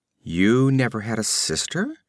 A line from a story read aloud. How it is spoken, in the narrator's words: came the sweet, poisonously mocking voice